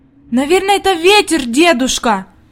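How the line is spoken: Girl's exclamation. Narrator (Russian): воскликнула Хади

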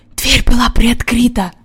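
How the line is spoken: Whispered. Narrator (Russian): прошептал Джон

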